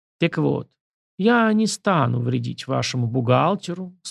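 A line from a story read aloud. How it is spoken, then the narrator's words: Calm. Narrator (Russian): спокойно продолжил кустодий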